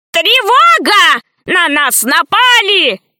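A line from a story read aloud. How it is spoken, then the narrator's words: Old man shouting. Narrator (Russian): закричал старый профессор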